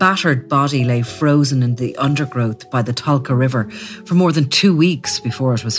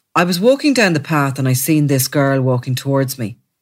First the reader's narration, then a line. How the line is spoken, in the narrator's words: he said, speaking in a flat tone